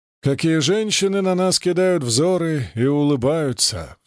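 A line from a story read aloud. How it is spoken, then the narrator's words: Sigh. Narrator (Russian): вздохнул Спика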